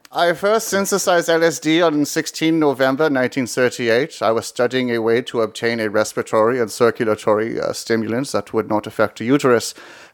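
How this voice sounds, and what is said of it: Put-on German accent. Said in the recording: “that's why I'm speaking with a German accent”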